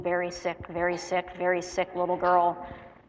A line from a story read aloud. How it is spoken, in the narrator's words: The nurses muttering their words of doom